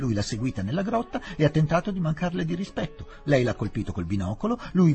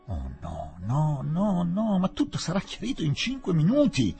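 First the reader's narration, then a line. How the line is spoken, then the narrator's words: Exclaiming again. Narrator (Italian): tornò ad esclamare Fielding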